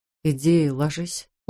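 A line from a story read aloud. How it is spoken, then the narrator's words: Gentle. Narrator (Russian): ласково сказал он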